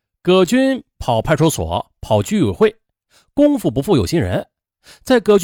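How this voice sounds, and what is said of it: Usual voice. Nothing is said of it.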